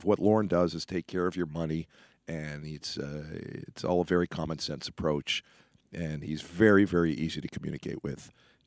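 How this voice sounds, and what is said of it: Hoarse, nearly lost voice. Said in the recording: “as you can tell, I've lost my voice.”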